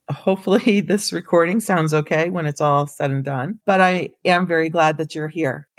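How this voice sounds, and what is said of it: Hoarse, raspy voice. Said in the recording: “my throat is a little hoarse, and you might notice that my voice is sounding a little raspy.”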